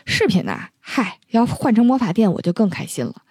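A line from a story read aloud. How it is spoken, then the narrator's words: Muttering. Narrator (Chinese): 他嘴里还嘟囔着说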